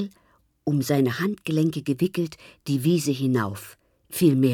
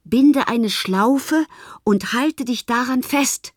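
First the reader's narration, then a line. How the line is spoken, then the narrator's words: Called out. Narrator (German): Herr Liebig rief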